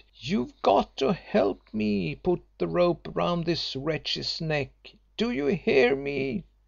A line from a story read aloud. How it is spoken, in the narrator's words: she cried